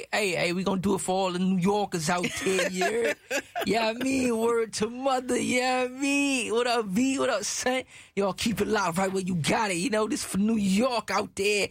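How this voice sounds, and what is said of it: Put-on East Coast New York accent. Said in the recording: “Hope you like my East Coast accent.”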